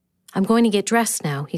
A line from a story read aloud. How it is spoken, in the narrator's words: said